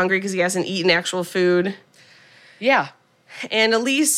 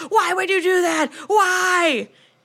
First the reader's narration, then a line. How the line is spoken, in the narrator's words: screaming